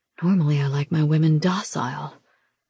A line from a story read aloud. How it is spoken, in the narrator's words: he whispers against my ear